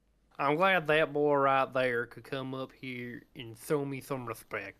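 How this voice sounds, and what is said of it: Rustic southern cowboy drawl, lisp. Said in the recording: “rustic southern accent, like a cowboy almost ... He has a lisp ... southern drawl with a lisp”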